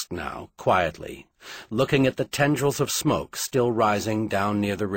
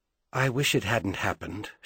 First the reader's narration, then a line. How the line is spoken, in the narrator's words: she said softly